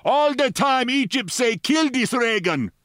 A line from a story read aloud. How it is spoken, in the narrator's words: he shouted